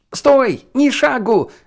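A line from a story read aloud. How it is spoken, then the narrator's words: Yelled. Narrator (Russian): завопил Нгуен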